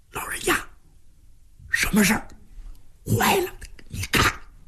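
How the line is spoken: Hushed voice. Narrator (Chinese): 压低声音

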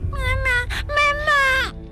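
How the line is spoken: Child crying out. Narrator (Chinese): 孩子 哭喊

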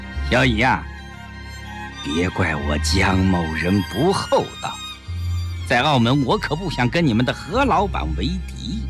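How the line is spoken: Slow, half-smiling. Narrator (Chinese): 江世飞似笑非笑地，缓缓地说

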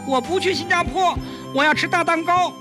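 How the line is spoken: Child clamoring. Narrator (Chinese): 小外孙吵嚷道

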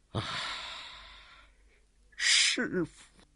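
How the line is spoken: Angry, long sigh. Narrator (Chinese): 他是越想越气，由不住长叹了一声

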